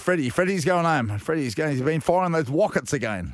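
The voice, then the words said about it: Welsh-accent impression of Keith Barnes. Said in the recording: “we had that bit of an accent there... Welsh.”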